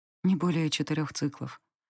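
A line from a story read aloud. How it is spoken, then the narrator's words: Quiet answer. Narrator (Russian): ответила я тихо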